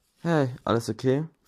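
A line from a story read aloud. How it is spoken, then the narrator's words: Worried voice. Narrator (German): fragte Gamma mit besorgter Stimme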